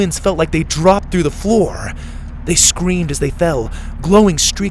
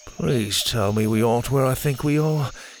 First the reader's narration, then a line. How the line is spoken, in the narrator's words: he mumbled